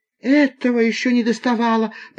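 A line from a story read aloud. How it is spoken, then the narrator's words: Woman's moan. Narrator (Russian): простонала пассажирка в темном углу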